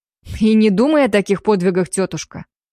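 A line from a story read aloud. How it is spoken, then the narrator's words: Smirking snort. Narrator (Russian): хмыкнул племянник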